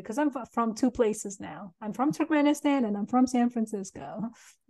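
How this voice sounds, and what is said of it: Foreign accent. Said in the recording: “I hear an accent.”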